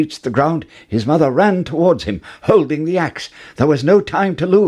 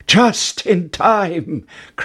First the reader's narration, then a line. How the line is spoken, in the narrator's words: cried Jack